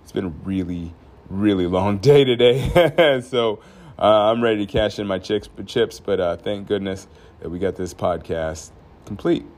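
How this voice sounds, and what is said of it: Tired-sounding voice. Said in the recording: “I'm a little tired today, as you can probably hear in my voice.”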